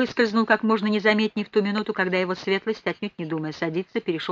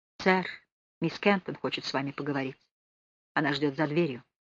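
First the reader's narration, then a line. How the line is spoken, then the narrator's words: Whisper in ear, footman. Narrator (Russian): старшего лакея, который шепнул мне на ухо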